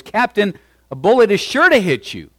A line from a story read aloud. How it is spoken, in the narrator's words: one of his sergeants shouted to him above the noise